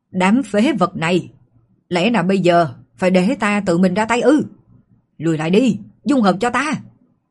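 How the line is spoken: Furious roar. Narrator (Vietnamese): Ma soái tử cụ Ma La phát ra tiếng gầm giận dữ

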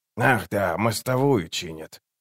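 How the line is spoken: Muttering. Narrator (Russian): пробормотал Круп

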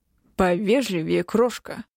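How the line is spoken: Menacing growl, emperor. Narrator (Russian): угрожающе прорычал император

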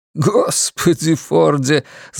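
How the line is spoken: Laughing. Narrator (Russian): засмеялся он опять

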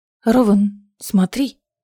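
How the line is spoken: Warning whisper. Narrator (Russian): предостерегающе шепнула Лиссандра

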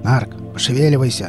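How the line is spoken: Growled. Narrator (Russian): рыкнул Велес

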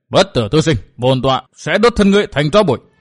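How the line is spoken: Furious roar. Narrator (Vietnamese): Tên thái thượng hộ pháp mắt nảy lửa gầm lên

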